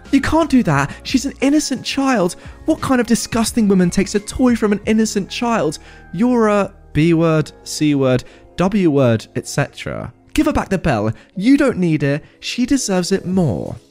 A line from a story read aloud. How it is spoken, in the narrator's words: Mother thinks she's superior stood up screaming